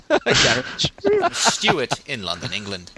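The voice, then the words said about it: Bad, shifting put-on accents. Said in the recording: “I think I did like three accents there... Every time you stopped, you started a new one... Worst accent ever.”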